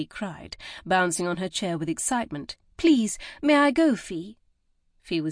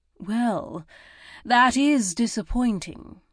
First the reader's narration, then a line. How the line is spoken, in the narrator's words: Lady Fosbury said with a sigh